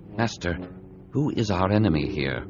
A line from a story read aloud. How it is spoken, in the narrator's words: Obi-Wan asked quietly